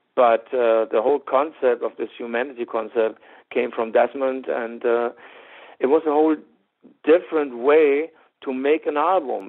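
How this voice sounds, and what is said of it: German accent. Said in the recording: “of course I have a German accent”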